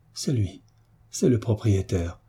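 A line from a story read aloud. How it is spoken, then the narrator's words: Trembling murmur. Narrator (French): murmura la pauvre créature, en frémissant de tous ses membres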